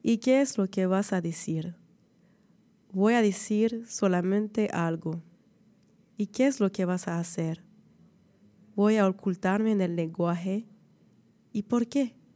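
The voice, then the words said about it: Heavy foreign accent in Spanish. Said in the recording (French): “avec mon gros accent dégueulasse”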